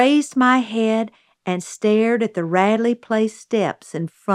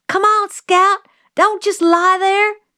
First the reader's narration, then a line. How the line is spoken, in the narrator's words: Jim was screaming